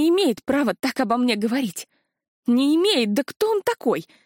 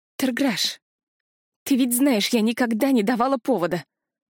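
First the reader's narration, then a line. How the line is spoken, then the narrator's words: Hoarse, barely restrained emotion. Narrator (Russian): Прохрипела я, едва сдерживая эмоции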